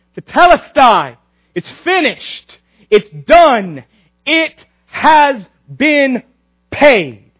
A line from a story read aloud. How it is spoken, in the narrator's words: from the cross, Christ yells out